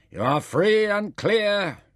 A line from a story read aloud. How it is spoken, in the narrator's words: heard the umpire shout